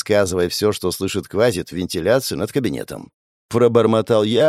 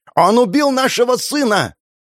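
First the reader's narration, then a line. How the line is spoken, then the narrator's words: Woman shouting. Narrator (Russian): кричала какая-то женщина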